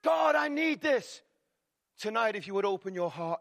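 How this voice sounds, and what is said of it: Loud, excited preaching voice. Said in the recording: “what this man is shouting about. Believe me, I'm not shouting. This is just my excited voice.”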